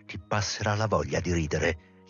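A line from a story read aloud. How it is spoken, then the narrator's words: Shouted. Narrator (Italian): gli gridò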